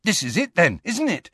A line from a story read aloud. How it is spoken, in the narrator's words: said Ron excitedly